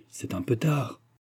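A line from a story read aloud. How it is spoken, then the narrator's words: Murmured with gentle smile. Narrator (French): murmura-t-il, en souriant doucement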